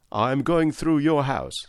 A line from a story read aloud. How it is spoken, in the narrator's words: said he